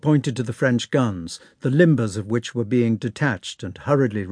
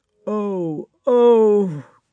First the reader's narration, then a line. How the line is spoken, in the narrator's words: groaned Nesvitsky as if in fierce pain